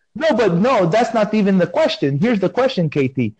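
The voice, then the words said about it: Strong non-native accent. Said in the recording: “have you heard my type of accent? They say I have. I don't think I have accent. This is how I was born... they think that I'm doing accent, but this is just how I speak”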